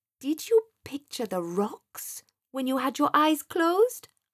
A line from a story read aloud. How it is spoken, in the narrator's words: asked Sam in a questioning tone